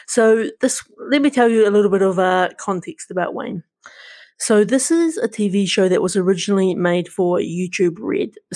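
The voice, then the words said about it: New Zealand accent. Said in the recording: “my Kiwi accent”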